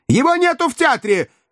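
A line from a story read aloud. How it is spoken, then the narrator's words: Shout cut off. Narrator (Russian): крикнул было Варенуха, но трубка тотчас же его перебила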